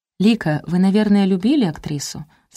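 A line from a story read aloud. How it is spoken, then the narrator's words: Plain. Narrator (Russian): спросила я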